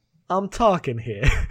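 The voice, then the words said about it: Deliberately bad American accent. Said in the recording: “vaguely passable American accent ... it was meant to be, like, bad on purpose, but it wasn't exaggerated enough”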